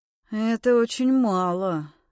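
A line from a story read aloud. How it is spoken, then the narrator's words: Sad. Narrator (Russian): грустно ответил Максим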